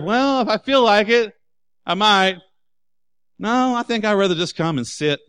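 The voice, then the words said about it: Sarcastic mocking voice. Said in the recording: “I'm being sarcastic.”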